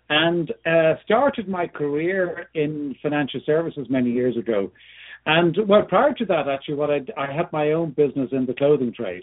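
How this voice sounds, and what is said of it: Irish accent. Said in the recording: “I was born and lived in Ireland for many years. ... A bit of a hint there by both my accent”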